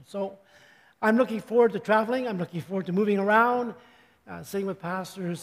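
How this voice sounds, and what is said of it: Wonky, off-sounding voice. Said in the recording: “my voice is going kind of wonky today ... allergies, I think”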